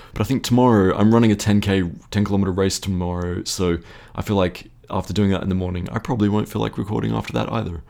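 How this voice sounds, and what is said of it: Tired, slightly croaky voice. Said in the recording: “I'm very, very tired today and a little bit croaky. You can probably hear it in my voice.”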